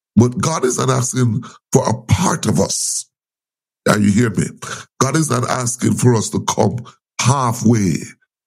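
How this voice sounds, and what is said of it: Strained, failing voice. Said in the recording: “please bear with me, my voice is going to my throat. I'm not sure what happened this morning.”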